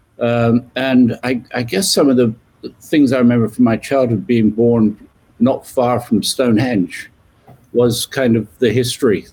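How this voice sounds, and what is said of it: British English accent. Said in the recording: “You can tell from my accent, I was born in the UK, just west of London.”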